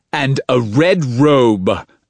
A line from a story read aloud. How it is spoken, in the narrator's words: Addison Fletcher shouted